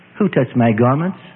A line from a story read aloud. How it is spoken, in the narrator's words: he asked